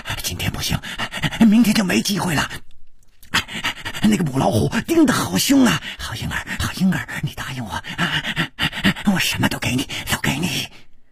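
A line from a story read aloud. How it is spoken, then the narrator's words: Heavy panting. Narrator (Chinese): 师传宗的喘息声更粗了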